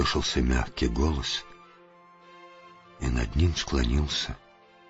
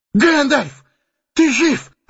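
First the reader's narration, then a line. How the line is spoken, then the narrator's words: Exclamation. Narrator (Russian): воскликнул он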